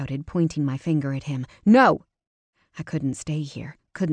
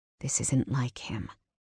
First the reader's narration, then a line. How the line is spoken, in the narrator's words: Jackson said so softly that I almost didn't hear it